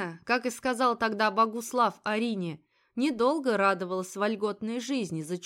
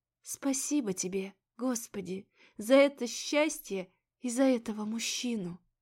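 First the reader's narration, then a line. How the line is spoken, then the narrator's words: Barely audible whisper. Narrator (Russian): едва слышно шептала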